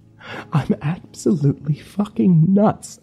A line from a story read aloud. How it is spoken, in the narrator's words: I whimpered